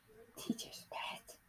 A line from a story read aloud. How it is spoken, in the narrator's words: a ballet student whispers to another student and says